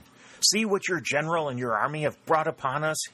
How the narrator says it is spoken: he cried

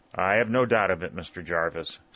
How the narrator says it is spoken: said Colonel Kenton

